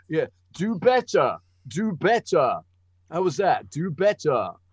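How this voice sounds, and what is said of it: Bad, American-sounding impression of co-host. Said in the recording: “my impression of you is shit ... You're very American, smashy now. And nicey, aren't you? ... Very, very smashy and nicey. ... I thought I was much posher than that. You're unposher”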